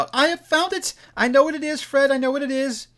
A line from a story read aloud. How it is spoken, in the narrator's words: the plump sister, falling into the similar state, cried out